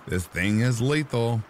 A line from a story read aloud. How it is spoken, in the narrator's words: laughed